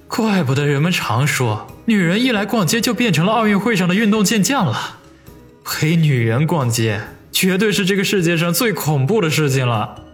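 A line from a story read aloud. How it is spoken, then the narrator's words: Sighing remark. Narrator (Chinese): 王宇不禁感叹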